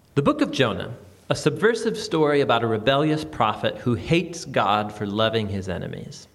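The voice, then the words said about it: American accent. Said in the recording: “someone with an American accent”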